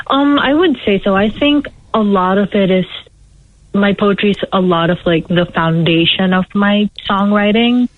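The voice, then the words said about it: Filipino accent. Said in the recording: “I'm trying to pick your accent... I was born in the Philippines... That was my guess.”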